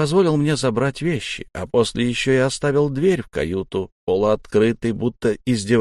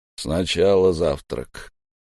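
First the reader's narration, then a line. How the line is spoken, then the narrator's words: Snort, then plain. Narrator (Russian): Торос хмыкнул и сказал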